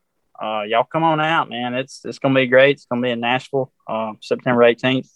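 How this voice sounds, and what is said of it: Southern US accent. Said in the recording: “nice Southern accent”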